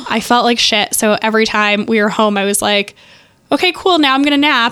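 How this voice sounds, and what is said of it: Hoarse, sick-sounding voice. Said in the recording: “you can tell in my voice, I was so sick in Mexico... I'd had like a cold... I didn't have a voice for 4 days”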